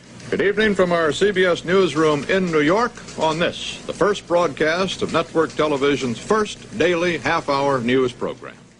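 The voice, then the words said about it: General American broadcast newscaster accent. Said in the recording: “General American as the way newscasters should speak ... broadcast English or network English ... that sound like you're from nowhere speech”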